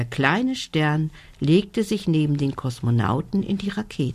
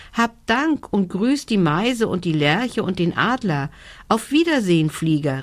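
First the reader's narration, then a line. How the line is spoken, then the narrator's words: Called out. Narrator (German): rief er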